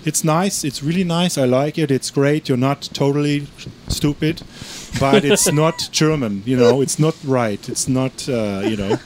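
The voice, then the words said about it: Poor imitation of Eastern European accent. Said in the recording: “his like Ukrainian / German / Polish / Russian accent, which I can't even imitate. That was a really bad job ... I butchered my grandfather's accent so badly”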